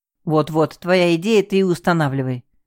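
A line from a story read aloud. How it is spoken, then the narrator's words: Displeased grumble. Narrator (Russian): пробурчал Артем, которому происходящее нравилось все меньше и меньше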